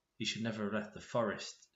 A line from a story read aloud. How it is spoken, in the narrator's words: whispers